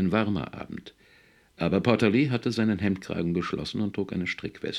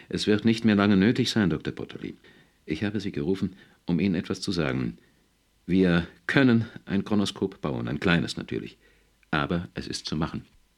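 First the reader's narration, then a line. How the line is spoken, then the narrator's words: Trembling voice. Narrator (German): Foster, der im Unterhemd vor ihm stand, sagte mit zitternder Stimme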